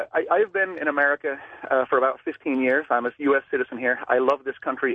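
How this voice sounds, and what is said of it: Danish accent. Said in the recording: “accent may sound a little funny. I am originally from Denmark.”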